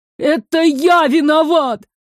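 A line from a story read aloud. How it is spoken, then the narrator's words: Sobbing, tearful. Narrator (Russian): Всхлипывая, размазывал по щекам слезы Иль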